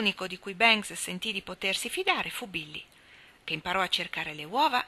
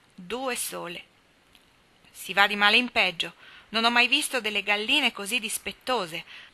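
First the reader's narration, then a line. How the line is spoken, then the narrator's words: Grumbling. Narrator (Italian): brontolò Tommy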